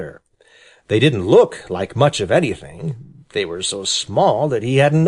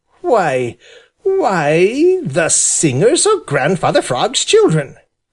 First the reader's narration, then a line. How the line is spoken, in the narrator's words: cried Johnny Chuck